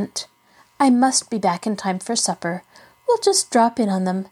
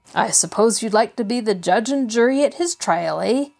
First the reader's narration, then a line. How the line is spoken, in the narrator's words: he chuckled